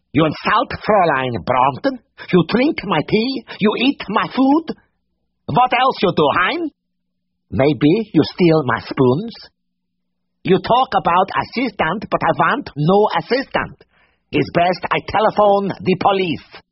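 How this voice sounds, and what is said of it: Corny thick foreign accent. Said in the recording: “such a completely corny accent ... the thick voice”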